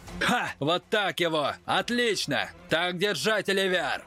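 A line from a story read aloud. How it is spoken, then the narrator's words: Old man's furious laughter. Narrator (Russian): расхохотался Нельсон, и его старческую физиономию как-то жутко перекосило от ярости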